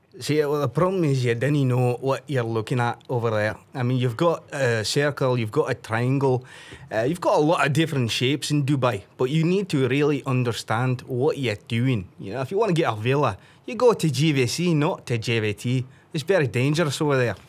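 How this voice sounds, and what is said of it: Put-on Scottish accent. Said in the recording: “can you do a Scottish accent”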